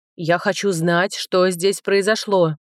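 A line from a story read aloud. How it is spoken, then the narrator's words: Barked close by. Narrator (Russian): рявкнули над ухом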